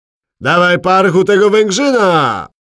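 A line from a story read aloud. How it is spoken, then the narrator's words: Impatient yell. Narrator (Polish): wrzasnął zniecierpliwiony Podsędek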